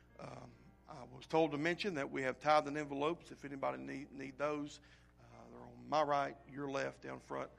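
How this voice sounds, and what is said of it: Hoarse, croaky voice going out. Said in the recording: “my voice just started to go out on me here in the past couple minutes ... I won't sound like a bullfrog ... Croaking my way through.”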